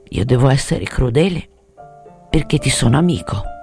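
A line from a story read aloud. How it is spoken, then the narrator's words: Murmuring. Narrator (Italian): Mormorò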